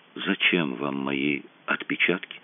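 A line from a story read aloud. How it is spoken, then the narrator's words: Barely audible question. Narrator (Russian): Еле слышно спросил он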